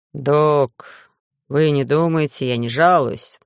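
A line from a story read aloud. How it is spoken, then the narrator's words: Good-natured bass. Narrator (Russian): добродушно пробасил Муар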